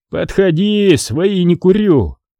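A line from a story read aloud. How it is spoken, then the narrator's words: Strained shout. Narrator (Russian): пересиливая себя, крикнул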